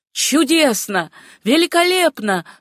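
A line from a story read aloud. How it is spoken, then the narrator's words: Exclaiming. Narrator (Russian): воскликнула Мабель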